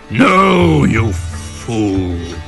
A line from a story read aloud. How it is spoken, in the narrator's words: roared the tiger